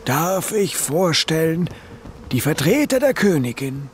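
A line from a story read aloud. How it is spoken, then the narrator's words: Dignified call. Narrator (German): rief sie würdevoll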